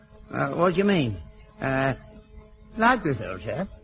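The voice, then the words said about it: Put-on upper-class English accent. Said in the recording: “Can you speak with an upper-class accent?”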